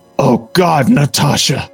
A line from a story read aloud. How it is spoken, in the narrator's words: Steve gasps, and Tony can just hear the need in his voice